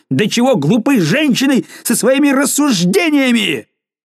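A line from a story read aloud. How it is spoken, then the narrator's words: Furious shout. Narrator (Russian): вне себя от гнева крикнув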